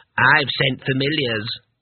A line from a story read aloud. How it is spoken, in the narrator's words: said a third